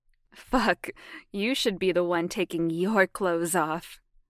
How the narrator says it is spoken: Jamie laughed

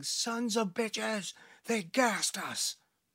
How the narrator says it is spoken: Garcia yelling

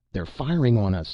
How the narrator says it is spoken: Norman cried

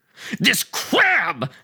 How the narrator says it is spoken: screamed

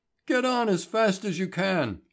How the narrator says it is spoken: cried

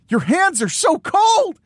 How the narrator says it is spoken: he yells

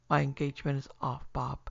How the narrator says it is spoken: he said, trying to speak calmly, but with a tremor in his voice which he could not conceal

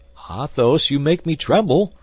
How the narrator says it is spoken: cried D'Artagnan

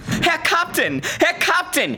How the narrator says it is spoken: yelled

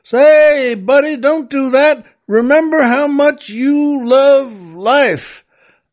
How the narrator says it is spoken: the oil man shouts up

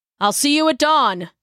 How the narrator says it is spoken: hollered after her

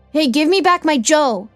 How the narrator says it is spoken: he yells

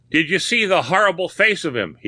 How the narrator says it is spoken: gasps

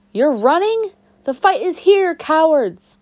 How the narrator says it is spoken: When she saw us driving away, she yelled

